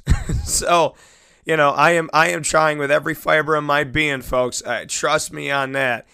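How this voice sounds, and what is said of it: Hoarse, scratchy, raspy voice. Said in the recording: “I lost my voice ... I'm gonna be a little bit scratchy ... raspy voice”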